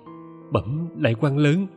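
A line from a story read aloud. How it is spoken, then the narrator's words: Hurried, trembling. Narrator (Vietnamese): chị vội run run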